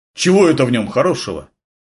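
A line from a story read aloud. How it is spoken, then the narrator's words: Jealous grumble, youth. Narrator (Russian): ревниво проворчал юнец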